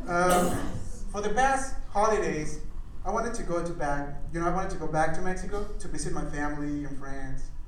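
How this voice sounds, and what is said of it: Foreign-accented English, Mexican speaker. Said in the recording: “my accent”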